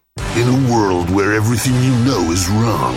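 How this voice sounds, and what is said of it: Dramatic American movie trailer voice. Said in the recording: “doing that voice? ... it's the American movie trailer voice. It makes things sound more exciting.”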